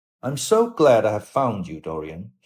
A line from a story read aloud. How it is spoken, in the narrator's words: he said gravely